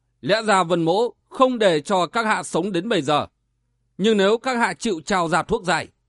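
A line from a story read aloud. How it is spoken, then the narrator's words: Harsh, menacing voice. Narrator (Vietnamese): Vân Giật Long nhếch môi cười, gằn giọng nói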